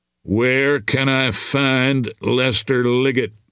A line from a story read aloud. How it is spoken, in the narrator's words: Bob asked evenly